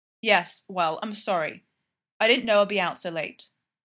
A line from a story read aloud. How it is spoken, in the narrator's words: Fraser said sharply